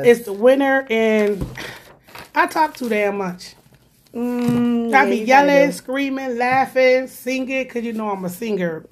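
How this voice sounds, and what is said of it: Hoarse, strained voice. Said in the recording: “my voice and your voice, now it's still your voice ... I lose my voice”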